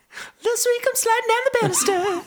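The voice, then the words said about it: High falsetto singing voice. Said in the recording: “I have a great falsetto”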